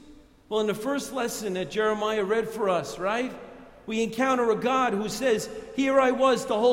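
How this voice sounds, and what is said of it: Usual voice. Nothing is said of it.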